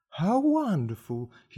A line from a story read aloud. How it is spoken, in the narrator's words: cried